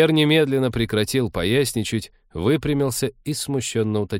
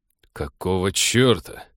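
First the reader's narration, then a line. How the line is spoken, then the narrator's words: Icy tone. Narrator (Russian): ледяным тоном остановил Станислав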